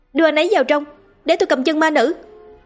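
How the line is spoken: Loud shout. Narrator (Vietnamese): A Linh hét lớn

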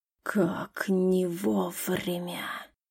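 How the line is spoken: Dragon's growling exhale. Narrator (Russian): Рычаще выдохнул дракон

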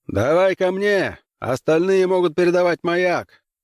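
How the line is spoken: Shouted. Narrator (Russian): прокричал капитан

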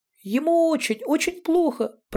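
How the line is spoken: Squeak. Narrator (Russian): пропищал Яторкин Жансерхив

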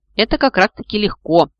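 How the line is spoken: Irritated, dismissive. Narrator (Russian): раздраженно отмахнулась мама

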